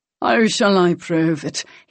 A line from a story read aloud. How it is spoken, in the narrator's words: He said lazily